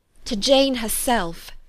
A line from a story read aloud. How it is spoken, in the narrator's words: she exclaimed